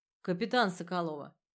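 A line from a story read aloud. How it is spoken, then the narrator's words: Forced calm. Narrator (Russian): ответил резник, стараясь, чтобы голос звучал спокойно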